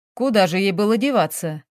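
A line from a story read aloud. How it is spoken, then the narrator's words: Contemptuous snort. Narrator (Russian): Презрительно хмыкнул мужчина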